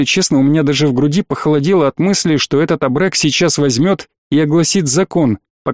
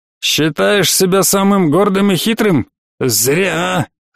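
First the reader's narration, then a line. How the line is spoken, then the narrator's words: Hiss. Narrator (Russian): прошипел кавказец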